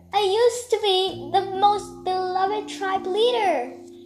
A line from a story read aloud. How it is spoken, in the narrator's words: shouted Nico back at Muffins